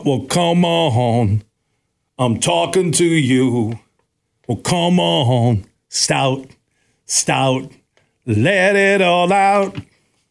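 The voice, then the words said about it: Singing in a British-sounding accent. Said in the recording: “I should have been in a British band with my accent.”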